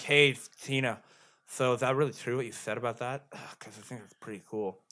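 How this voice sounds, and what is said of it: Character voice with a heavy lisp. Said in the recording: “Jimmy Jr.'s got, like, the wicked lisp, like this.”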